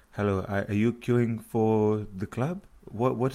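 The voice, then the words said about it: Put-on accent, unclear which. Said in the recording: “I don't know which accent I'm doing”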